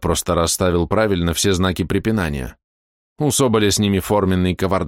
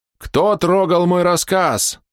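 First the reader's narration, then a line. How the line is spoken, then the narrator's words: Shouting in strange voice. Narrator (Russian): закричал он неслыханным голосом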